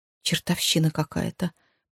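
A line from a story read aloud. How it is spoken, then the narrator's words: Muttered under breath. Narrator (Russian): пробормотала себе под нос Джози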